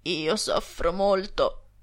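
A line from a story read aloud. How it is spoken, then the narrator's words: Sepulchral, mournful voice. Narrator (Italian): rispose egli con una voce da sepoltura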